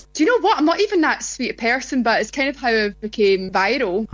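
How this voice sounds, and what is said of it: Speaks with a distinctive accent. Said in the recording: “gorgeous accent ... Okay, that's the accent.”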